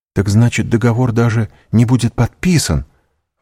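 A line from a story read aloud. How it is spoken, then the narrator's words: Exclaiming. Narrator (Russian): воскликнул Морель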